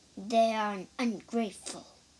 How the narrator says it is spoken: muttered Lady Ku

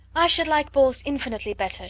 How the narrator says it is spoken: she replied

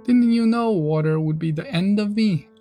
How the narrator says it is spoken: asked the witch, in a wailing, despairing voice

